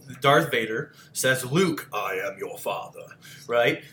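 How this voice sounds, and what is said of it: Darth Vader voice impression. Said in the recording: “Sounds just like that, too. ... I did a pretty good impression. ... very ... Good.”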